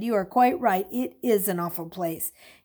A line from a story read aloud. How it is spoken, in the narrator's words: he said firmly